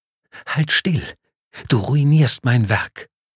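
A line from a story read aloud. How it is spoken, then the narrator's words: Muffled hiss in ear. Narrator (German): eine gedämpfte Stimme zischt ihr ins Ohr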